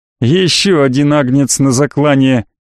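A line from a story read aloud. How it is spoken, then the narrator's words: Loud laughter. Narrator (Russian): расхохотался лейтенант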